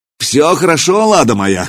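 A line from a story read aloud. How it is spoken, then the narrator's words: Shouted. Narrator (Russian): крикнул наместник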